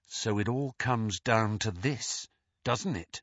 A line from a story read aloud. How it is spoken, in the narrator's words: whispered Harry